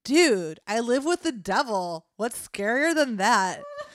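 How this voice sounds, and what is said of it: Valley Girl character voice. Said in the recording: “I don't know why he has a Valley Girl... that's our main accent”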